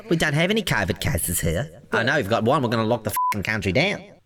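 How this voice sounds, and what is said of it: Imitates another person's voice. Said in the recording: “My Jacinda Ardern impression's getting great there, isn't it? It's really sharp there.”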